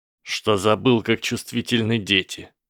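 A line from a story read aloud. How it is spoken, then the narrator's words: Snorted. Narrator (Russian): фыркнул Драко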